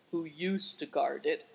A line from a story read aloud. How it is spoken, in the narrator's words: said Affliction gloomily